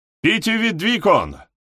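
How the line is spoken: Officer barking orders. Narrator (Russian): рявкнул офицер нижним чинам

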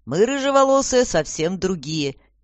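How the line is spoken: Cheerful. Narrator (Russian): весело подмигнула Аня

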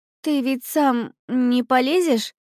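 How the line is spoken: Uncertain question. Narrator (Russian): неуверенно осведомилась Алиса

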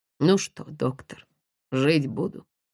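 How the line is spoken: Hoarse question. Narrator (Russian): хрипло спросил Никита

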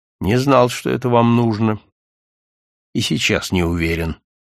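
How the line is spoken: Heavy, strange voice. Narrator (Russian): сказал он каким-то не своим, тяжелым голосом

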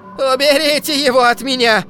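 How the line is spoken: Screaming. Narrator (Russian): кричала она

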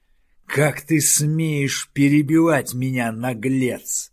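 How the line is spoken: Angry growl. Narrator (Russian): зло зарычал Хауда

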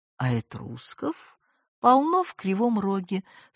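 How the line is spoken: Calm, smug summary. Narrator (Russian): спокойно резюмировал невозможный доктор Бугров с этой своей улыбочкой

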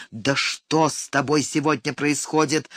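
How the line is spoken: Angry retort. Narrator (Russian): зло обернулся к ней

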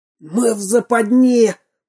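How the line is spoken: Exclamation. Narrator (Russian): воскликнул пират

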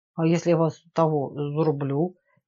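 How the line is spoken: Uncertain young man. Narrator (Russian): неуверенно проговорил парень

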